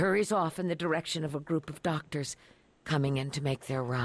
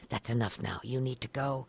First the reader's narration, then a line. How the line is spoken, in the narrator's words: the nurse saying just under her breath